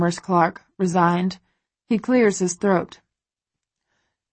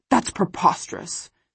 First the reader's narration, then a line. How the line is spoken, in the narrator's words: Christian splutters